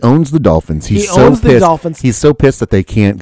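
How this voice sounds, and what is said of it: Usual voice. Nothing is said of it.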